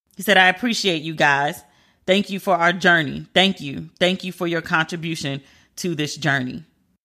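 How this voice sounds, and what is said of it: Emotional, tearful voice. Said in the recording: “why am I tearing up? ... I'm really getting emotional here.”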